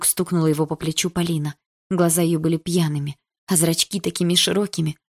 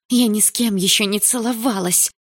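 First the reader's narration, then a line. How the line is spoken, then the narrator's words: Hissing girl. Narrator (Russian): прошипела девушка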